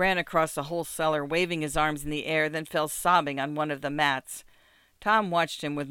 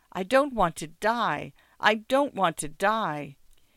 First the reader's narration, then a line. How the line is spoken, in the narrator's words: pleaded